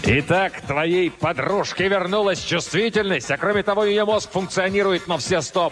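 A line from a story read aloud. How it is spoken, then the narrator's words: Roaring. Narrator (Russian): проревел Кризераст ужасный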